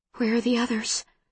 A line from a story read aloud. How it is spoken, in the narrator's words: whispers Susan